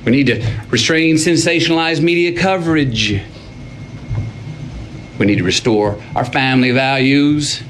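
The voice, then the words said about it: Texan accent. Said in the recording (French): “accent euh, texan, toujours euh, aussi délicieux à entendre”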